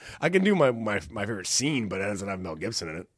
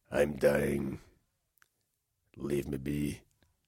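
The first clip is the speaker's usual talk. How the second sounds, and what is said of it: Put-on Scottish accent. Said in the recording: “it's going to give us a Scottish accent. That's probably pretty good.”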